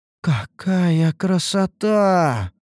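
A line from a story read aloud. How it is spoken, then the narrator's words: Amazed drawl. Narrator (Russian): протянула изумленная Лейна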